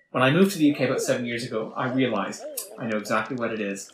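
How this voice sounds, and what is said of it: Canadian accent. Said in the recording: “I'm from Canada, if you couldn't tell from the accent.”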